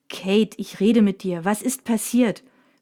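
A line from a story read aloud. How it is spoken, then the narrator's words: Angry repeated question. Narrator (German): fragt Mina erneut, diesmal ziemlich wütend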